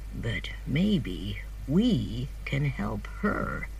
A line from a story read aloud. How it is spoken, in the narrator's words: answered Matthew quietly